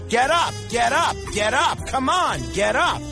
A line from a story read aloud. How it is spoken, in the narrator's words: driver is shouting, very frustrated at the horse